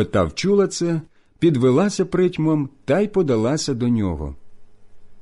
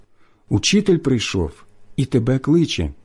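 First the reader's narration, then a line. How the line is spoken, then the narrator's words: Whispering. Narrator (Ukrainian): каже пошепки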